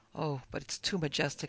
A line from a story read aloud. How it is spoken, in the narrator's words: I whispered